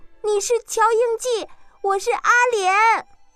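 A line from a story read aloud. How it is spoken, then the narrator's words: Frightened, raised voice. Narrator (Chinese): 阿莲更害怕了，提高声音说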